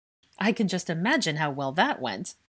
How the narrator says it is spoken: Angelina snorted

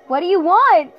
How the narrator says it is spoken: I screamed

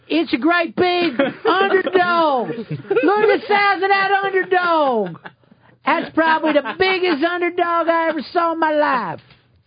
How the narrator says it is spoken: a bunch of rednecks screaming

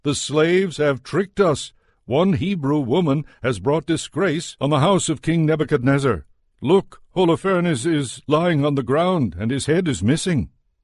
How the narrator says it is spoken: he rushed out to the people and shouted

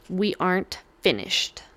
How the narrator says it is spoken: he hissed

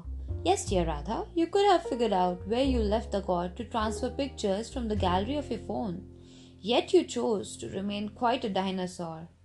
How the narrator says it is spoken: Jenny laughed out loud to answer

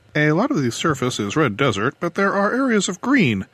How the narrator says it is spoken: some unseen planetary scientist was explaining excitedly

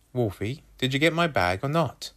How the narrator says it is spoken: I asked again, more urgently

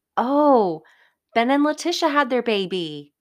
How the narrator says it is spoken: piped up

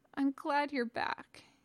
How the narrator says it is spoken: he mumbled

